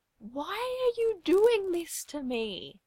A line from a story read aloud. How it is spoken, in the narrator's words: Tim whines